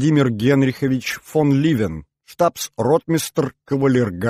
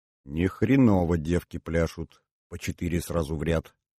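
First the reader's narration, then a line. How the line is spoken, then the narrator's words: Stunned mutter. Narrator (Russian): пробормотал Иванов, будучи несколько ошеломлен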